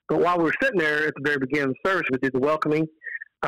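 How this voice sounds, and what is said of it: Texan accent. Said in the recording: “I'm from Texas ... I can tell by the accent.”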